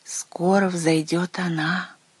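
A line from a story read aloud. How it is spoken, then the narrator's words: Father, said quietly. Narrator (Russian): Отец прервал игру и тихо сказал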